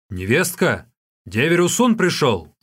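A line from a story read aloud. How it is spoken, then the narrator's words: Shout. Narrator (Russian): он крикнул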